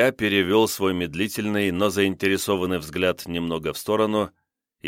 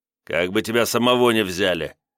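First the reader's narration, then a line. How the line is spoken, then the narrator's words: Gloating snap. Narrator (Russian): огрызнулся лиходей, злорадно посмеиваясь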